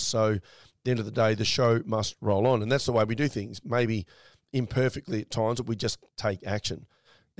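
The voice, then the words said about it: Scratchy, hoarse voice. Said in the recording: “As you can probably hear in my voice, I'm still a little bit scratchy.”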